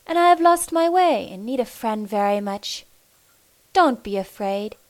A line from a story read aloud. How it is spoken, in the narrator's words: the stranger said kindly